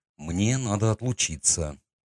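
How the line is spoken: Quiet. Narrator (Russian): сказал я тихо

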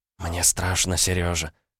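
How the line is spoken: Whisper. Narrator (Russian): прошептала она

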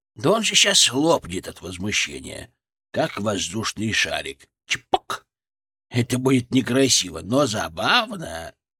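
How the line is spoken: Quiet. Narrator (Russian): Фырк, тихо

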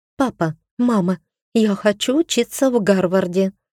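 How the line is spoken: Blurted, unembarrassed. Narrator (Russian): выдала она, ничуть не смущаясь

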